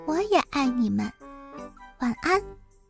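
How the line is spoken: Soft. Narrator (Chinese): 也对他们轻声说

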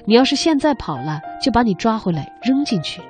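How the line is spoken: Joking, teasing threat. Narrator (Chinese): 他开玩笑的吓唬阿明说

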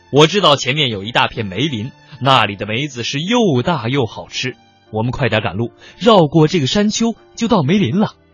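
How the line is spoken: Loud command. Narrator (Chinese): 曹操大声的对将士们传令说

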